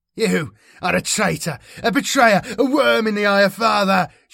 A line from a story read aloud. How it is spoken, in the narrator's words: shouted Erasmus